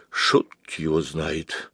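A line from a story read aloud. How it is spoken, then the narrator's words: Quiet. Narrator (Russian): Так же тихо произнес Ираклий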